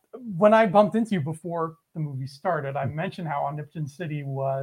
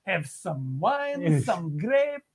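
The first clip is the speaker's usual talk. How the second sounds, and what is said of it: Mock Greek accent. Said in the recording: “His Greek accent is like flawless. ... It's not good.”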